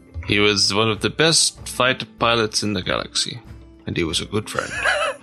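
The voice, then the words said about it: Alec Guinness as Obi-Wan Kenobi. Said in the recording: “the quote from Obi-Wan Kenobi ... just a great Alec Guinness impression. Just fantastic.”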